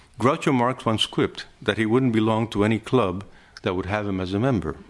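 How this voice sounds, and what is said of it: Deep southern US accent. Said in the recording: “my southern accent, from the truly deep south, would give me away”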